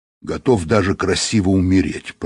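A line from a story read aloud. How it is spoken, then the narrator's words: Grumbling. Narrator (Russian): проворчал Быков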